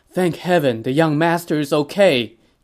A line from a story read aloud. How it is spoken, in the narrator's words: Zhao Yun exclaimed